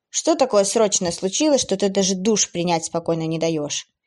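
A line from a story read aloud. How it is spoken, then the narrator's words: Irritated, disappointed question. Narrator (Russian): Несколько раздраженно и разочарованно спросил блондин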